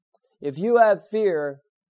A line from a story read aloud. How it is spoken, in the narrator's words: the lion has roared